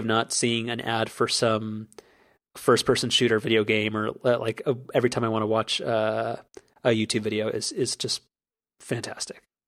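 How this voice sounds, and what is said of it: Fading, hoarse voice. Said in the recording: “I'm losing my voice halfway through”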